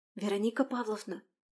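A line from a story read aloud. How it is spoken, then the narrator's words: Quiet whisper. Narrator (Russian): негромко прошептала Алиса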